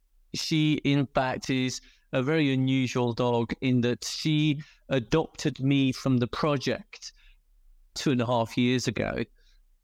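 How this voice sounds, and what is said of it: British accent. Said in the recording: “I'm British, as you can probably tell by the accent”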